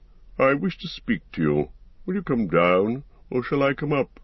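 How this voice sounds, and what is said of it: Soft-spoken old man's voice. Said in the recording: “he said in a soft voice.”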